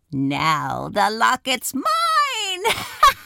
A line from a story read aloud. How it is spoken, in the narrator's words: cackled